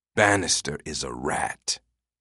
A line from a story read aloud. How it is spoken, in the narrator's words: Quinn said bitterly